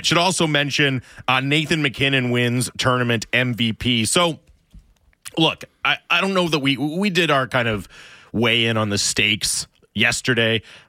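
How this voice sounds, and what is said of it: Raw, strained voice. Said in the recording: “my voice is a little raw today as well. I did quite a bit of yelling”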